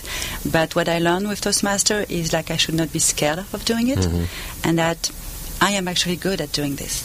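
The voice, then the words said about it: Non-native accented English. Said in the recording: “with my accent, it was kind of difficult for me to speak in public”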